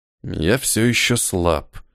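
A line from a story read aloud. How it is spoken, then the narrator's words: Muttering. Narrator (Russian): пробормотал Ниэль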